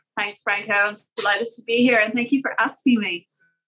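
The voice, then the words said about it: Irish accent. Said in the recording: “Who would know by that accent that you're from Ireland”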